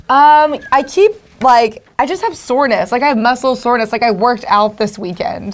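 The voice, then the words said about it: Hoarse, mostly lost voice. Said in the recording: “that's why my voice is gone”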